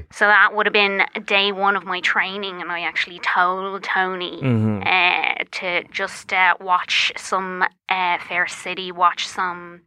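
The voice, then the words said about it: Lilting Irish accent. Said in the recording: “your accent is not one that I would expect from an FBI agent ... people just trust the Irish accent more. There's just something about the lilt of it”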